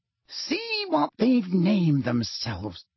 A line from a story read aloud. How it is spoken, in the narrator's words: said Fudge quietly